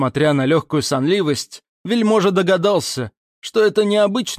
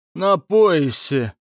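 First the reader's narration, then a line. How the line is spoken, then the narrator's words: Strained. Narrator (Russian): выдавил из себя Парнамский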